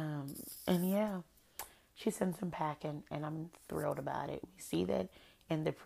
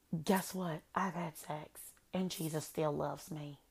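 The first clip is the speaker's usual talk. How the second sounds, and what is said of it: Put-on Southern American accent. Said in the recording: “I'm sorry for the southern accent. I couldn't help myself. Hannah's is so cute, but it's so strong.”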